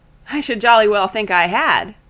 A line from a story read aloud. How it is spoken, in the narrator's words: said Bannister, with a laugh